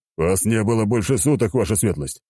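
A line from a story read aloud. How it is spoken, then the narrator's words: Snorting reply. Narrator (Russian): хмыкнул в ответ Аршавин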